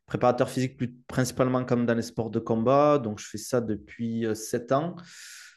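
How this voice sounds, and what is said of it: Southern French accent. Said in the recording (French): “ton accent, je pense aussi que tu nous viens euh, du sud de la France”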